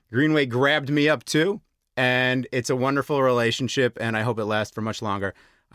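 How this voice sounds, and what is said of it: American English accent. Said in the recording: “maybe you can hear it in my voice. I am not native Slovak. I'm American”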